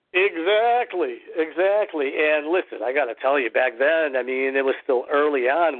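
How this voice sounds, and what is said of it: Slight non-native English accent. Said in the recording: “a little bit of an accent that I still have”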